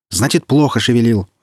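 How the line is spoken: Yelling. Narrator (Russian): заорал на него Ильин

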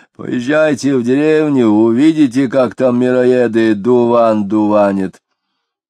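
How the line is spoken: Powerful dry bass voice. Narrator (Russian): Хотяинцев предлагал могучим, но неприятно сухим басом

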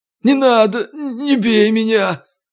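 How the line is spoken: Whimpering plea. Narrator (Russian): захныкал бродяга

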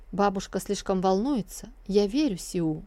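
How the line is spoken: Plain. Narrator (Russian): ответил принц-заложник

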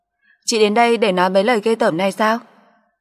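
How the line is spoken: Mocking laugh. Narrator (Vietnamese): Tâm Liên cười mỉa mai

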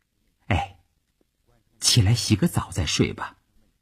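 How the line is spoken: Soft, gentle. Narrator (Chinese): 他轻声地说

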